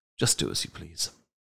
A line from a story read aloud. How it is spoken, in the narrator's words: coolly replied